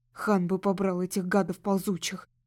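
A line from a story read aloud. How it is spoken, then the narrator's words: Grumbling. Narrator (Russian): проворчал Моди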